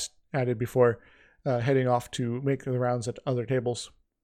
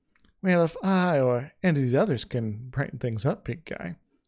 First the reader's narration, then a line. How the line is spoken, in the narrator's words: she purred out at him